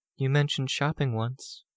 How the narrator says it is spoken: she murmured

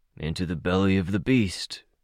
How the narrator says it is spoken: the old man grumbled

